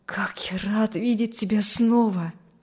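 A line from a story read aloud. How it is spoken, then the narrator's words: Joyful whisper. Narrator (Russian): Радостно шептал Вильям на ухо Кристи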